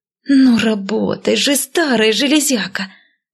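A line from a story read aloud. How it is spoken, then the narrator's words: Hiss. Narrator (Russian): прошипела я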